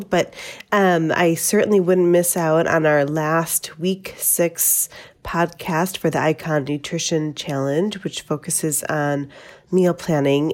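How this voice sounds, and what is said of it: Voice affected by a cold. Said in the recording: “Please excuse my voice. I just have a little bit of a cold”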